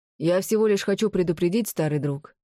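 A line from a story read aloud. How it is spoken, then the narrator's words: Wry grunt. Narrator (Russian): хмыкнул Томмазо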